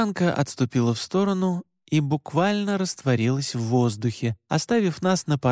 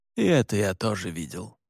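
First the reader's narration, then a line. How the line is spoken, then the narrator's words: Grumbling. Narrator (Russian): пробурчал Александр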